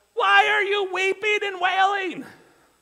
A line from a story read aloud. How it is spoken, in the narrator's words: Jesus, in order to get them to be quiet so he can hear them, he would have to be yelling above them